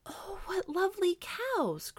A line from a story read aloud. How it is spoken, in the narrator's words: cried Helga again